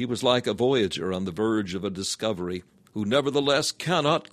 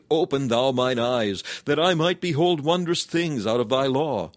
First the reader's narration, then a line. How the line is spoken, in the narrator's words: cried